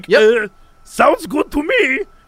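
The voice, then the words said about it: German-accented mad scientist character voice. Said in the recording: “that's my Nazi scientist voice... Pretty good... very good... Keep doing that voice... the German cra-... the crazy Nazi scientist”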